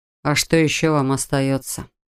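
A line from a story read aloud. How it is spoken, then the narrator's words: Sighing. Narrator (Russian): вздохнул Адам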